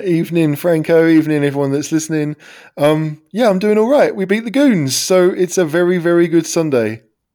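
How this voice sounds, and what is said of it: Hoarse voice. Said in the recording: “you sound a little bit hoarse”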